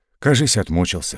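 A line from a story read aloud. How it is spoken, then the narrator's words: Corporal's whisper. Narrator (Russian): шепнул ефрейтор соседям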